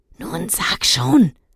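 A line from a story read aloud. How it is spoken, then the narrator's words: Hiss. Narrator (German): zischte Dennis seinem Freund zu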